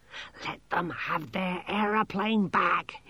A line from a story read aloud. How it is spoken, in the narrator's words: he hissed